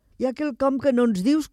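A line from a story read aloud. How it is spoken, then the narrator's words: Girls laughing. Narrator (Catalan): començaren a dir les altres nenes rient altra vegada en veure aquella dansa extraordinària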